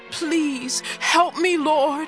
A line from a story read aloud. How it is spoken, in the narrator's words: begged